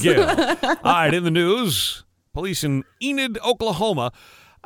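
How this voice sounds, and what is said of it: Mock newscaster voice. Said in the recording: “this is my newscaster voice.”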